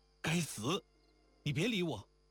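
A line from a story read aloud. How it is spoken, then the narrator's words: Furious stamping outburst. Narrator (Chinese): 惊环本是满心是火，心里正气得发昏，便自己和自己发了大怒，顿足道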